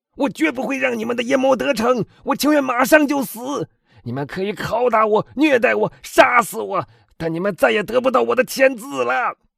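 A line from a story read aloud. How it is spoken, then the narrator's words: Shouting. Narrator (Chinese): 腾格拉尔喊道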